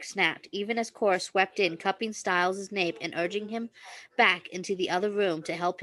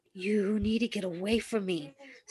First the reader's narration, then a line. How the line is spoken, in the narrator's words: Styles gasped out with the sparse lungful of air he'd managed to draw into his tight chest